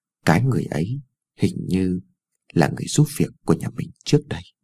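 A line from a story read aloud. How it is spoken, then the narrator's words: Mumbling softly. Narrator (Vietnamese): Cô còn lí nhí nói thêm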